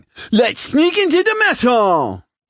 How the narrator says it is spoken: he yelled

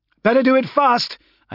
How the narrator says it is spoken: I shouted

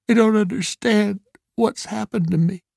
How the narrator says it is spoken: he sobbed

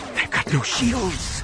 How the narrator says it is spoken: she whispered, more to herself than anyone else

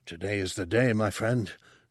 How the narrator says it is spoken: Tessic answered softly

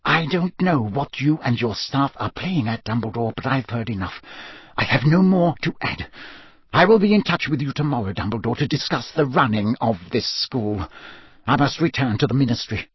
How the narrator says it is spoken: whispered

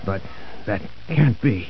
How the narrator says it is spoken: murmured Vassant

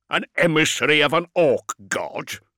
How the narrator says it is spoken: Beaumont spat the words

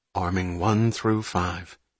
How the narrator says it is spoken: Magnuson said quietly

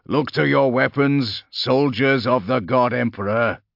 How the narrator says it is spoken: called out, his powerful voice booming

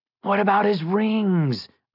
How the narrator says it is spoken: Ivan whined

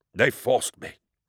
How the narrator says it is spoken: wheezed

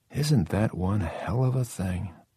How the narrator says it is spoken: said softly

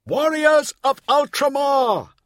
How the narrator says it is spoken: bellowed Remus

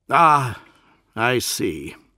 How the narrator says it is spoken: the Lord Commander sighed

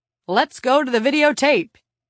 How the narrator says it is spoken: yelled cheerily

